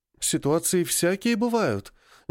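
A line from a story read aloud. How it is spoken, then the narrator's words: Uncertain reply. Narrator (Russian): неуверенно ответила мама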